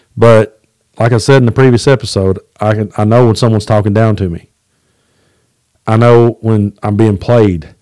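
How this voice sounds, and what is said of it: Southern American accent. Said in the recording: “You know that I have a Southern accent ... I twang when I sing”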